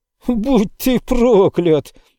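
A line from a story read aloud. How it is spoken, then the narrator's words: Shriek. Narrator (Russian): взвизгнул Иисус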